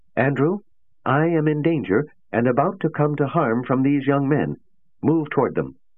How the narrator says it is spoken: George said sharply

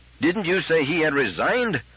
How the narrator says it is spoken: roared Bogart

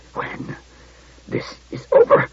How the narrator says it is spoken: he began, but choked into inarticulacy

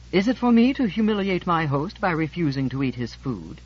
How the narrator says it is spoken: George said haughtily

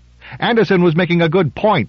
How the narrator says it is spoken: said Reuben, indignantly

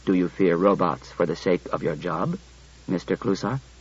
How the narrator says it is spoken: Daniil said quietly to Clusar

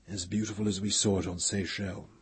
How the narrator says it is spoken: Pellerat said in a low voice

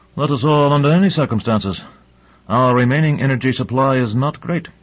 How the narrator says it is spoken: Dezhnev grunted

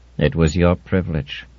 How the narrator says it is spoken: said Mullen in his dry voice

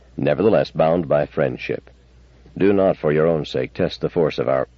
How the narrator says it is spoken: Bailey said sharply

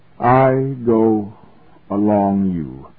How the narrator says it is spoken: He said wearily

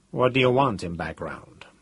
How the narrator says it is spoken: Cathcart asked coolly

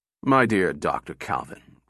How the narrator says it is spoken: rumbled the general, his voice sinking into the lower baritone registers

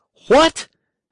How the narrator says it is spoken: came back the appalled shout in his ears

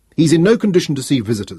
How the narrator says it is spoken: snapped Dawes

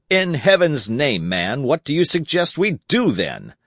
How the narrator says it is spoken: The presidential assistant said, irritably

